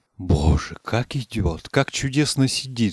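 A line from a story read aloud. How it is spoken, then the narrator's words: Retinue whispering. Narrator (Russian): шептали в свите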